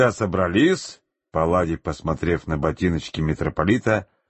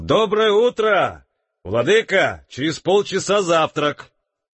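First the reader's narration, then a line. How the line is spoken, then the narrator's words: Shout. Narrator (Russian): крикнул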